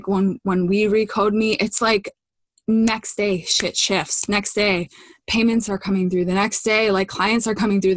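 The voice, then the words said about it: Breathless, slightly odd-sounding voice. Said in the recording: “I'm out of breath. ... I think my heart rate is up a little bit. ... I can't breathe very well. So that's why I sound a little odd.”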